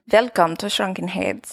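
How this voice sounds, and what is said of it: Weird Dr. Frankenstein-style accent. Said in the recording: “this weird Dr. Frankenstein accent ... I'm really good at different accents.”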